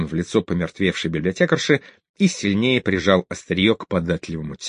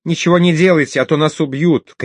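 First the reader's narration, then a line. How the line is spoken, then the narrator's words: Shouted, then sobbing. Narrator (Russian): крикнула она и заплакала навзрыд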